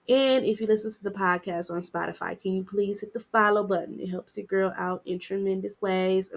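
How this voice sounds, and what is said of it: Voice slightly off, cold-affected. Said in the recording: “I'm still recovering from my little cold I got, so please forgive me if my voice is a little different.”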